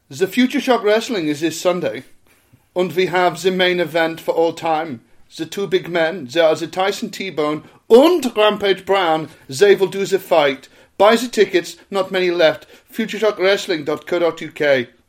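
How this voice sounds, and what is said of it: Fake German accent. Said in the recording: “put on a cod German accent to be truly efficient”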